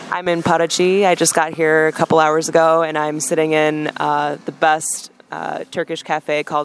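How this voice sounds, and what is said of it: Strong foreign accent. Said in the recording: “he has a pretty strong accent”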